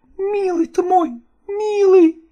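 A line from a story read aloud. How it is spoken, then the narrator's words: Sobbing. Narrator (Russian): зарыдала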